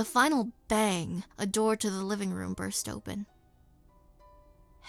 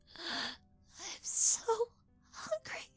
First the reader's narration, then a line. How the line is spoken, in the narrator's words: she whispered huskily